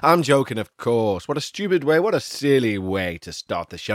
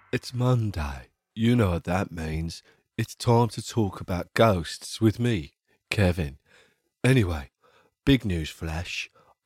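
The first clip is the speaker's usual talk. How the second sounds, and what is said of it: Put-on smooth radio announcer voice. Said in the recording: “I've decided to talk like this for the rest of my life ... So I thought I'd do this voice, which is a bit more radio and a bit more friendly”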